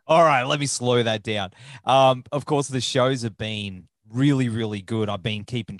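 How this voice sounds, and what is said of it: Australian accent, fast speech. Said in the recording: “my accent is probably... slow my Australian down... I love that accent, though”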